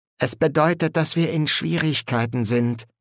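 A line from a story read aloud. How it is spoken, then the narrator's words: Plain. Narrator (German): sagte er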